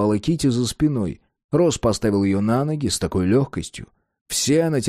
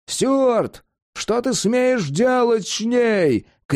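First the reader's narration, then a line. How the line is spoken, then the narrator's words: Distant shout. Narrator (Russian): крикнули там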